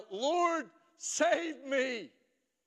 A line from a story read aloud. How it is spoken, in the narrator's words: he cried out